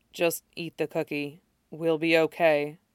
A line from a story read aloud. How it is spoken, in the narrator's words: says calmly